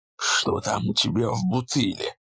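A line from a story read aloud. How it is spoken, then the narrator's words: Hissed. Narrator (Russian): прошипел он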